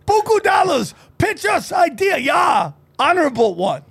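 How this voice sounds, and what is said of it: Put-on Japanese accent. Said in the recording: “you're gonna probably have a Japanese accent.”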